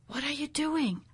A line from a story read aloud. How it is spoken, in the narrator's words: I breathed into his ear